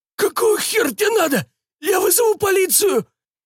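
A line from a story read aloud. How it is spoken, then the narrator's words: Fat man, wheezing, choking. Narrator (Russian): сипел толстяк медленно синее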